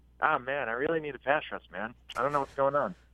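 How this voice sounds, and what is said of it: Poor imitation of another person's voice. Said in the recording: “That was a terrible Gruden impression, but I tried.”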